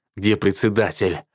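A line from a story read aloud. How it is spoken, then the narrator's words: Breathless, through gritted teeth. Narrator (Russian): задыхаясь, цежу сквозь зубы я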